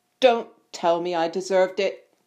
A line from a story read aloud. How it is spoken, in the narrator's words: snapped Ron